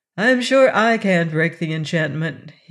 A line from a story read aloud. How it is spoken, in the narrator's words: he said